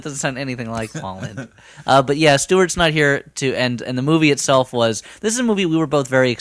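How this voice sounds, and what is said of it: Usual voice. Nothing is said of it.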